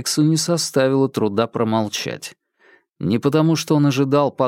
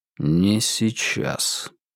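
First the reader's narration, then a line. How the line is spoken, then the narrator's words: Very quiet repetition. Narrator (Russian): очень тихо повторил Вербин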